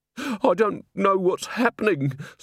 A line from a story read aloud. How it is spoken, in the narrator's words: sobbed Mrs